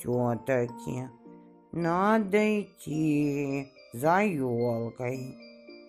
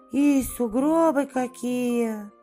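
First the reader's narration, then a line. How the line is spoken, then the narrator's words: Sigh. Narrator (Russian): вздохнул ежик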